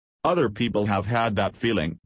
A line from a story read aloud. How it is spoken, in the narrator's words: said the Raja dryly